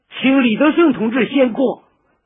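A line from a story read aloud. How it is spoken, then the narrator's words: Crowd shouting in unison. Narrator (Chinese): 几百人的队伍齐声喊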